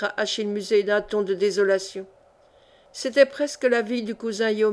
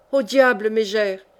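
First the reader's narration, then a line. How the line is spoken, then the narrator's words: Furious shout. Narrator (French): s'écria-t-il en fureur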